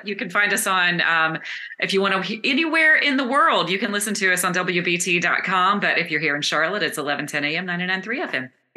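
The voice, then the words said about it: Radio announcer voice. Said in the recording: “she even did the radio voice.”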